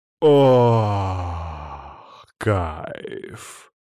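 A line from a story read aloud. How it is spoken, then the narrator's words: Moaned. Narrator (Russian): Простонал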